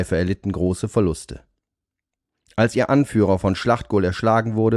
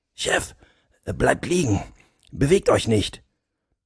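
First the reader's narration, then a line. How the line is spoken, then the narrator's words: Speaking quietly. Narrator (German): sprach er leise zum Oberst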